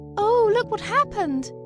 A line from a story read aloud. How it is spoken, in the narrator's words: cried Dorothy